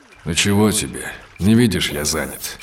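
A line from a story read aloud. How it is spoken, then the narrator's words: Grumbling. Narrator (Russian): проворчал Сид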